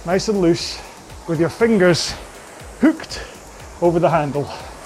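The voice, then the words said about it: Put-on Scottish accent. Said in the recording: “said in my best Scottish accent.”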